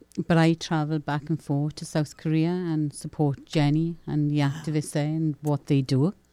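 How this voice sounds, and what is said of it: Welsh accent. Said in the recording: “I love her accent... I just want to listen to her accent.”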